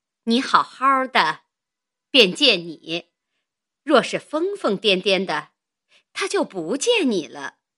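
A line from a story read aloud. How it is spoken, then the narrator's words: Suppressing laughter. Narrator (Chinese): 便忍笑说道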